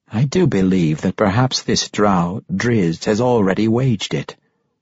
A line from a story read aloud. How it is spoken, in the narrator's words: Paris replied